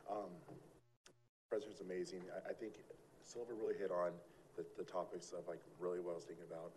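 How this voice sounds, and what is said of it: Hoarse, strained, fading voice. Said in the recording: “losing my voice, so sorry”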